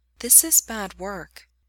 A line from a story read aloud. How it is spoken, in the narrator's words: says quietly, looking up at him from where she's lying over his shins